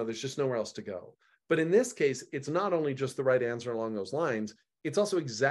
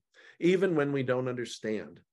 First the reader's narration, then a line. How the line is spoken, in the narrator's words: says Peter